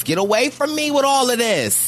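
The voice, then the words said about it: Imitates another person's voice. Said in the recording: “In my Phaedra Parks voice”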